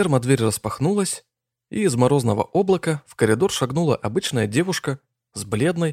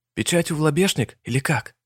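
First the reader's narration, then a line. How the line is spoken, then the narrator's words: Quiet question. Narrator (Russian): Иванов негромко поинтересовался у приятеля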